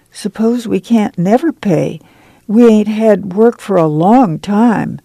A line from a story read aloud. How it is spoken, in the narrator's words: Joyce said timidly